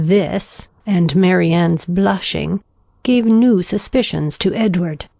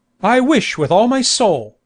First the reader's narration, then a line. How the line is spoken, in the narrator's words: cried Sir John